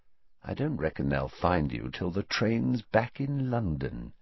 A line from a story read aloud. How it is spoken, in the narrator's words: he said quietly